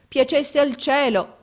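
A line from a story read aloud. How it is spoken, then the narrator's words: Crying exclamation. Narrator (Italian): esclamò piangendo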